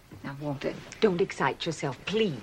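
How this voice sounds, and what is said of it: Whispering voice. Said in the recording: “stop whispering ... This woman goes around whispering ... a whispering woman”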